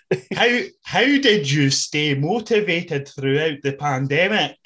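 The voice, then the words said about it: Exaggerated American-Scottish accent impression. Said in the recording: “my American Scottish that Drew McIntyre does ... It's absolutely spot on.”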